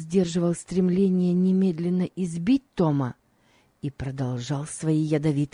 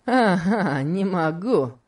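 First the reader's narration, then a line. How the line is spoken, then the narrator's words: Mocking. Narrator (Russian): сказал Легри насмешливо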